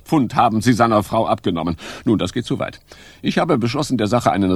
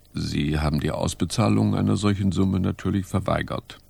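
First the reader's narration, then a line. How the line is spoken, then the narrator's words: Murmured. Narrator (German): Poirot murmelte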